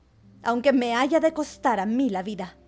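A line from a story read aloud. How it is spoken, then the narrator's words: Shout. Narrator (Spanish): gritó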